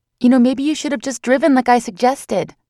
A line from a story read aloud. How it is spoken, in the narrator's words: I blurted out